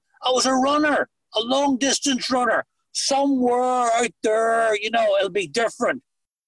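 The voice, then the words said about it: Irish accent. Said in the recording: “I'm sitting in America with an Irish accent.”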